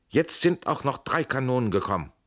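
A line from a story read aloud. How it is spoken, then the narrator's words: Joyful call. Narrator (German): rief er freudig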